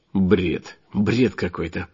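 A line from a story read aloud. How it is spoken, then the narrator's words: Muttered. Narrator (Russian): пробормотал я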